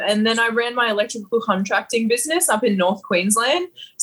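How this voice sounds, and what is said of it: Broad Australian bogan accent. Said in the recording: “clearly not from what we're listening to now ... this bogan sound”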